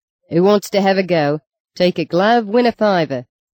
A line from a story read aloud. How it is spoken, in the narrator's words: kept yelling between the booms of a bass drum